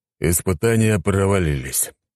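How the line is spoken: Sighing. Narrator (Russian): вздохнул Леонид

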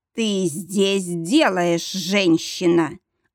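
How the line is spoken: Distinct growl through teeth. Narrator (Russian): Отчетливо сквозь зубы прорычал Мортон

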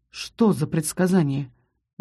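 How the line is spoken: Gentle. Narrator (Russian): мягко произнес Рос

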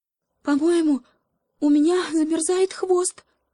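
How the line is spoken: Frightened whisper, small monkey. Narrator (Russian): испуганно прошептала обезьянка

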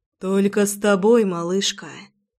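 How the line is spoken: Exhaled. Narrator (Russian): Выдохнул он

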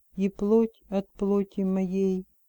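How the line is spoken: Quiet reply. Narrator (Russian): тихо отозвался он

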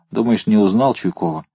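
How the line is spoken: Ordinary voice, smiling. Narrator (Russian): вошедший улыбнулся, сказал обыденным голосом

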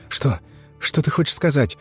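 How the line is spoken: Whisper. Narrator (Russian): прошептала Лера

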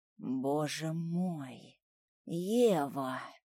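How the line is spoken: Barely audible. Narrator (Russian): произносит он чуть слышно

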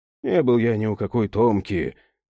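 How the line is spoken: Tired insistence. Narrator (Russian): устало продолжал настаивать на своем Степан Григорьевич

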